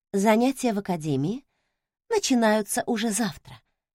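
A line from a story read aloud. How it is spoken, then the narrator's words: Breathy exhale. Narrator (Russian): выдохнула я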